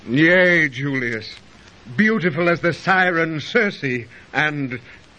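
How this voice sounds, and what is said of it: Bitter, hesitant tone of voice. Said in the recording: “Why does your voice sound so bitter?”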